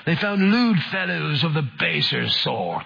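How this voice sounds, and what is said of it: Put-on English accent. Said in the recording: “Let me read that again in an English accent.”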